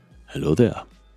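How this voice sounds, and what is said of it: Obi-Wan Kenobi character voice impression. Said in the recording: “That's my new Obi-Wan Kenobi impersonation.”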